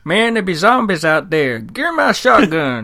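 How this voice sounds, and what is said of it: Put-on American redneck accent. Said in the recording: “That's an American accent, huh? ... Redneck.”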